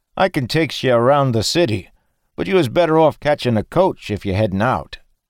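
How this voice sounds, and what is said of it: Low-born Maine accent. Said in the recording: “speaking in a low-born Maine accent”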